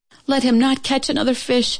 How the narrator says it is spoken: cried to heaven

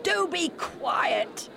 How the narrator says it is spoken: they shouted

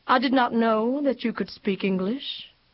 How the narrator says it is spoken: he said evenly

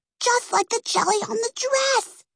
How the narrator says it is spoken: hissed Peggy

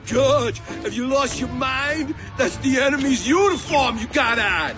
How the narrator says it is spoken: Spud Bloom yelled out

